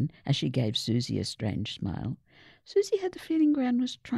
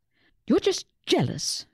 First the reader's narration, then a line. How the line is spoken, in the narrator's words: Susie snapped